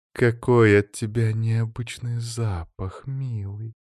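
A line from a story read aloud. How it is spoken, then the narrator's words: Purring. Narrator (Russian): Мурлыкающе произнесла она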